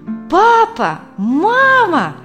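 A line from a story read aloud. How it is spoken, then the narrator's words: Ecstatic loud shout. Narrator (Russian): восторженно закричала Катя на весь салон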